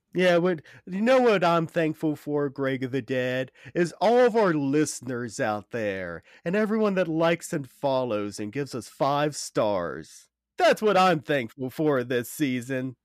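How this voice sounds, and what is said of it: Sarcastic delivery. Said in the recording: “Why are you being sarcastic to them? ... you're being sarcastic about them.”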